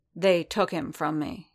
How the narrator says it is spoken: said softly

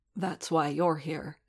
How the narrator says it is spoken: Din muttered back

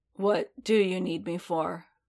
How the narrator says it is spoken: Boba asked quietly

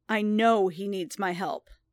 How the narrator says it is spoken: Din growled

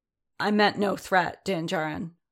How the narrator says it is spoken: said Anson stiffly

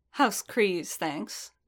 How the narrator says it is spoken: the Zabrak said dryly

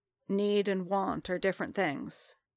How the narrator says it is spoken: Fett said gently

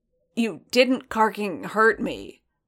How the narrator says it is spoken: Boba said gruffly

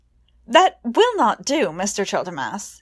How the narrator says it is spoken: he exclaimed

